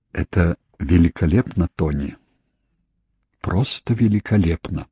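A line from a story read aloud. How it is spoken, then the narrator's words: Soft proud whisper. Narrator (Russian): тихо прошептала она наконец, не пытаясь скрыть, как горда за сына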